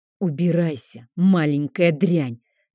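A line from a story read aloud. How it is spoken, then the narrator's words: Quiet gloating hiss. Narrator (Russian): донеслось тихое злорадное шипение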